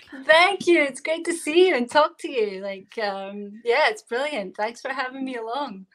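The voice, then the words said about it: Scottish accent. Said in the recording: “I am in Glasgow, Scotland. So that's the accent you're hearing right now.”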